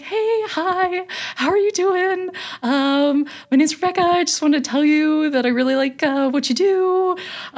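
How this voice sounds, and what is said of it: Very high-pitched polite voice. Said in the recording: “my voice gets super high, which I notice and can't stop”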